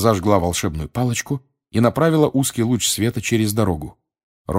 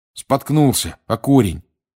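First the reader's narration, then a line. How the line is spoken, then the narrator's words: Angry grumble. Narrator (Russian): сердито пробурчал он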